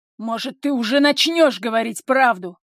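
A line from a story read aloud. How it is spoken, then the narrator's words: Slightly sharp, flustered. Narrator (Russian): Немного резко выдаю я от того, что жар внутри разливается сильнее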